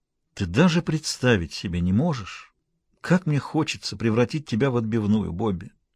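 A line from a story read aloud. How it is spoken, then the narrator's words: Most heartfelt voice. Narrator (Russian): сказал он самым проникновенным голосом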